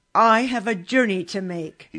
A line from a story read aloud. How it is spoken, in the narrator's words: he said sternly